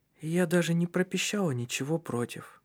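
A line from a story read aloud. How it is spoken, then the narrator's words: Quiet, gloomy. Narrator (Russian): тихим голосом невесело сказала она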